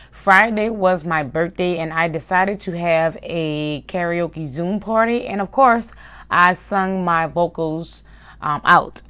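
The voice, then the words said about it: Raspy voice. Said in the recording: “my voice is a little raspy ... there is a little rasp in my voice”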